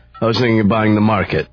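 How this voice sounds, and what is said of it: Sarcastic delivery. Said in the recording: “You're being sarcastic there, aren't you? ... Wait a minute, that was sarcastic.”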